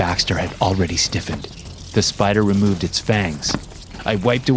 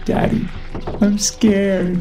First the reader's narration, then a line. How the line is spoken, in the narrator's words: Ava whimpered